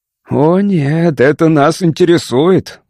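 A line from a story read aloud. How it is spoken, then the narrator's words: Growled. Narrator (Russian): прорычал Дон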